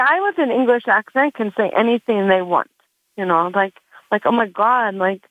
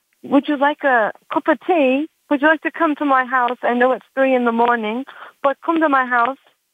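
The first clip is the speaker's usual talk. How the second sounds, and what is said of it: Put-on English accent. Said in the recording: “Yes, with the English accent.”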